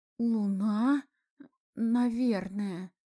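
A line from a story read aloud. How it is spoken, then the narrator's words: Uncertain reply. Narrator (Russian): неуверенно ответил студент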